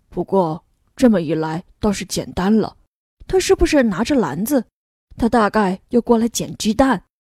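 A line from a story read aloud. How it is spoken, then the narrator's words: Whispering. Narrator (Chinese): 悄声说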